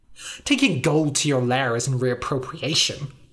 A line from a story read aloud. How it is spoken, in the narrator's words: said Kvok, sneering